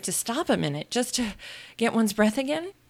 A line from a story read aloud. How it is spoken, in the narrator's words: Alice panted out after running a little further